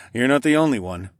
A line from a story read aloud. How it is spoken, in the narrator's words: chuckled